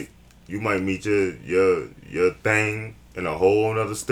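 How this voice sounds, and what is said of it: Usual voice. Nothing is said of it.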